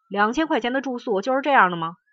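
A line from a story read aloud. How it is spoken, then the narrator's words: Arrogant indignant clamoring. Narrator (Chinese): 那些狂傲的名人纷纷向工作人员嚷道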